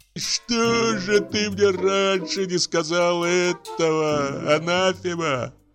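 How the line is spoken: Groaning. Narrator (Russian): застонал Почечуев

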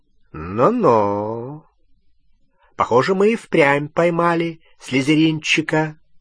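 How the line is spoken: Drawling. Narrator (Russian): протянул Струпьер

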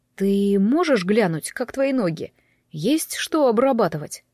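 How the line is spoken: Plain. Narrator (Russian): спросил друг

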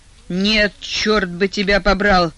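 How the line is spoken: Growled. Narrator (Russian): зарычал Адам

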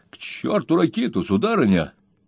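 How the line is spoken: Excited exclamation. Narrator (Russian): воскликнул Боб, забыв от волнения о своем профессиональном достоинстве

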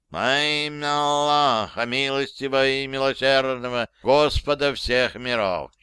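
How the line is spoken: Nasal chanting voice. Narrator (Russian): начинает гнусавым голосом мулла

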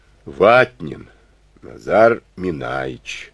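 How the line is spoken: Deep booming rumble. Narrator (Russian): прогудела эта гора, словно из глубокой шахты

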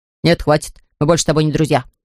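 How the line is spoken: Angry snarling dog. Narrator (Russian): ответил пес и сердито оскалился

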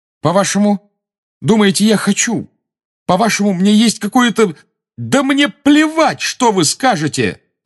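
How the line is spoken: Shouting. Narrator (Russian): закричал Гарри

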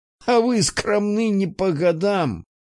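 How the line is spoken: Laughing. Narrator (Russian): Петр Михайлович рассмеялся

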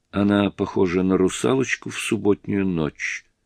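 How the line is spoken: Whispered. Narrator (Russian): прошептала миссис Грэхэм

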